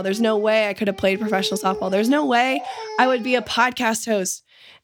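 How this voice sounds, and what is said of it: Hoarse, strained voice. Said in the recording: “I feel like I'm screaming, even with a sore throat”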